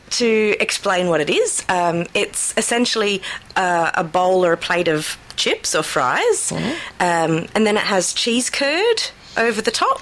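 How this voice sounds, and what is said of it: Australian accent. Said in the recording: “maybe I'm saying it with an Australian accent”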